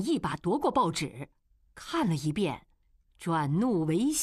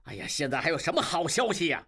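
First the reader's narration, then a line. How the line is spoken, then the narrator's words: Angry. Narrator (Chinese): 金勇怒道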